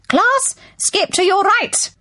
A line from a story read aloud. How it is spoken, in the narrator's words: When Miss Tutu bellowed